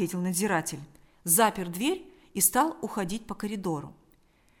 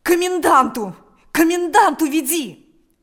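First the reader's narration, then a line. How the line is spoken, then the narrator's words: Desperate shout. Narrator (Russian): закричал Степан отчаянным голосом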